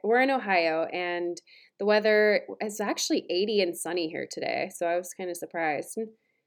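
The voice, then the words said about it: Stuffy, congested voice from cold. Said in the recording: “I have a bit of a cold, so that's why I sound kind of stuffy.”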